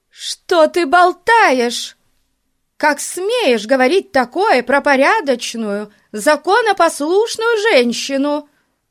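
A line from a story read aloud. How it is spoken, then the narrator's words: Shouting. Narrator (Russian): закричала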